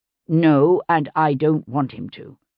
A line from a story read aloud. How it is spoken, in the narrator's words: William said firmly